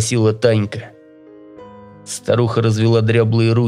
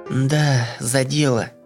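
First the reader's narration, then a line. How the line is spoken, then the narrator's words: Gloomy reply. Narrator (Russian): мрачно ответила Таня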